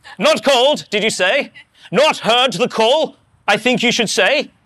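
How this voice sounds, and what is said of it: English accent imitating William Booth. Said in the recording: “William Booth, founder of the Salvation Army ... I imagine he's got an English accent”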